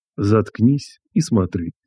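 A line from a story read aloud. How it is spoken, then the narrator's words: Quiet mutter through teeth. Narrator (Russian): тихо процедил я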